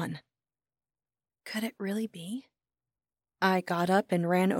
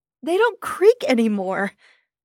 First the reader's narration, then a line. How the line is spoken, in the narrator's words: I shouted